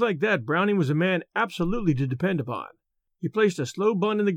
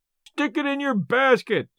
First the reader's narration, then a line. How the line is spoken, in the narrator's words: yelled Merritt, in a delight that showed how hard he was pulling for the gate money